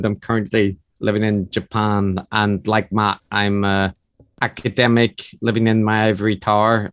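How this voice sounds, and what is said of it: Northern Irish accent. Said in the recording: “that sumptuous Northern Irish accent ... the Northern Irish accent is distinctive”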